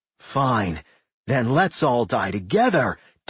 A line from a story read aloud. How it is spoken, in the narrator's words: Dickerson roared in madness